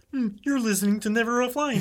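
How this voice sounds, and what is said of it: Kermit the Frog character voice. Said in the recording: “That was Kermit, by the way. ... that was my Kermit impression.”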